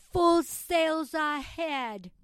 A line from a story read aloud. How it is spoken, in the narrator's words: he shouted